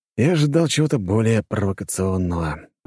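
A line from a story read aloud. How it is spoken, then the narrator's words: Disappointed sigh. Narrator (Russian): разочарованно вздохнул я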